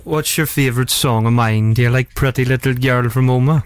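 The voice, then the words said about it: Imitates another person's voice. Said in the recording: “your Daniel impression”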